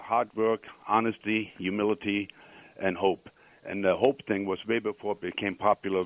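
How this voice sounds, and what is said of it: Noticeable non-Western-US accent. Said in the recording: “doesn't sound like a Western United States accent ... I love his accent ... I know I have an accent”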